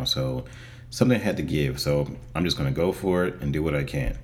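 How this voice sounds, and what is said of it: Voice not yet fully recovered. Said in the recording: “as you can hear from my voice, it's not back to where it needs to be yet”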